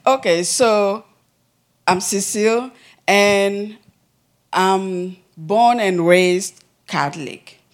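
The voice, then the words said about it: Speaks with a noticeable accent. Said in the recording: “My accent, so if you cannot hear the words, sorry.”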